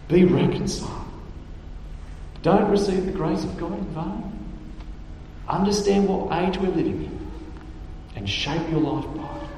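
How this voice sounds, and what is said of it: Australian accent. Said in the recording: “broken Australian accent”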